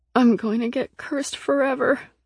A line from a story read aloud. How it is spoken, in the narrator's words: I groaned